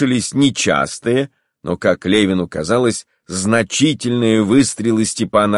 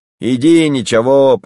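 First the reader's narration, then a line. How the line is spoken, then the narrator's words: Cheerful man shouting. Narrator (Russian): прокричал с красным лицом веселый бородатый мужик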